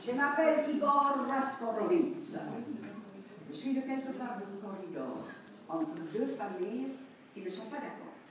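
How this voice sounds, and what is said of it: Put-on foreign accent. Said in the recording (French): “il faut dire avec l'accent”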